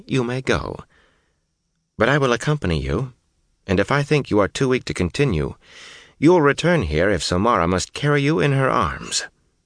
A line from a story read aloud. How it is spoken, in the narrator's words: she said calmly